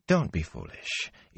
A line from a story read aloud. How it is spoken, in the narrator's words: Ila said soothingly